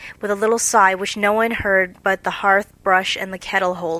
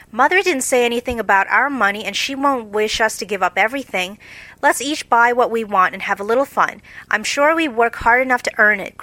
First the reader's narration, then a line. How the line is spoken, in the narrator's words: cried Joe